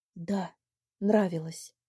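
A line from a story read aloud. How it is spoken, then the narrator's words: Whispered. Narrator (Russian): сказал тоже шепотом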